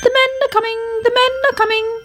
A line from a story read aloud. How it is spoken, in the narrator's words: he chirped anxiously